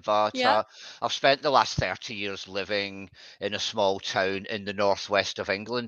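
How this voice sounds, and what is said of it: Scottish accent. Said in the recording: “I'm from Scotland originally. You can probably tell from my last name and my accent”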